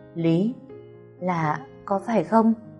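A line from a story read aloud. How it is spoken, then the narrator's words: Stunned stammering. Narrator (Vietnamese): Tôi ngạc nhiên, miệng lắp bắp nói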